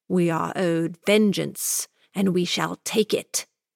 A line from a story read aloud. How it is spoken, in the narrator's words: the housekeeper hissed